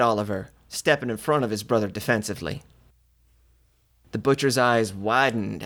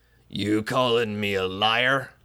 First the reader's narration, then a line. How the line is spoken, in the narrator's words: the butcher snarled, his deep voice sinking to a deadly hush